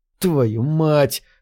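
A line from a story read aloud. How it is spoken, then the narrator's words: Exhaled exclamation. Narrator (Russian): выдохнул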